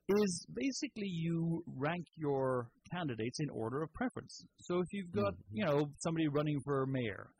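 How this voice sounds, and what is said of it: Irish accent. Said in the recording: “in Ireland especially, as that's how I know about it. ... Is that where you're from? ... That's exactly. Can you not tell by the accent? I should strengthen my accent a little bit more.”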